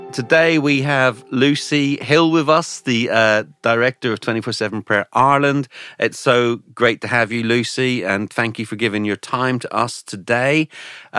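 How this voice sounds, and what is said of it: Irish accent. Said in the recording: “my own Irish accent gets a little bit stronger”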